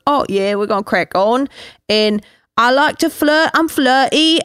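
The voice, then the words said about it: Imitated Love Island UK accent. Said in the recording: “I hear those accents”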